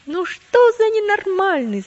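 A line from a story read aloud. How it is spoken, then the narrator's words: Group shouting. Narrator (Russian): закричали они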